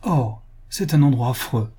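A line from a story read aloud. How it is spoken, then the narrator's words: Exclaimed. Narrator (French): s'écria madame Wilkinson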